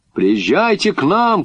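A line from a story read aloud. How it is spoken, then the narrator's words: Shouting. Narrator (Russian): крикнул я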